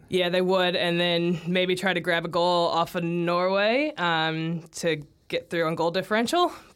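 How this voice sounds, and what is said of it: American accent. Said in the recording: “Obviously by the accent, American.”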